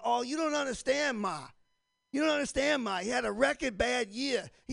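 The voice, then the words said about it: Imitated heavy Boston accent. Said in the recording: “my wife has a serious Boston accent”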